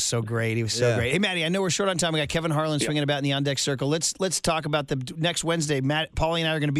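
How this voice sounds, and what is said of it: Usual voice. Nothing is said of it.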